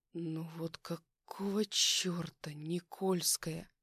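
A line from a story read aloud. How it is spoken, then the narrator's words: Tired, angry, uneasy mutter. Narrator (Russian): Устало пробормотал я, чувствуя, как внутри нарастает злость, смешанная с каким-то странным тревожным беспокойством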